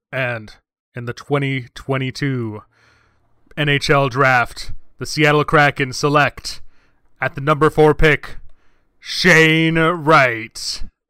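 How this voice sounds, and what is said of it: Sports announcer voice. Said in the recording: “going to do my best announcer voice.”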